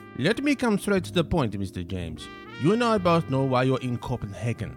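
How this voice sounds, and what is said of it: Wavering, hard-to-place accent. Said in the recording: “Henriksen's wavering accent”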